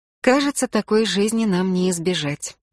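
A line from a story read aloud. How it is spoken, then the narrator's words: Sad reply. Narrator (Russian): печально ответила сестра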